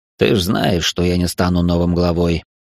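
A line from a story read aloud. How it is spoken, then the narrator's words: Calm. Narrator (Russian): спокойно сказал я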